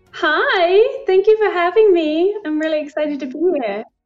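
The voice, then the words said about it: British accent. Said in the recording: “Your accent is so lovely. ... I love the British accent.”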